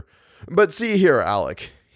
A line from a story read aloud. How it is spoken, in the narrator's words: he laughed